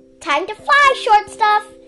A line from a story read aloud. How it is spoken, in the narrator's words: He shouted